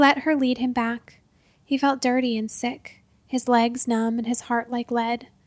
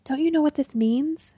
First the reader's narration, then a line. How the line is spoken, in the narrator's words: she said, her voice in an excited whisper